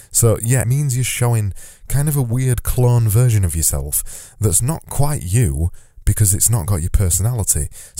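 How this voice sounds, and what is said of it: Yorkshire accent, drawn-out vowels. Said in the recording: “my Yorkshire accent means that I extend my vowels”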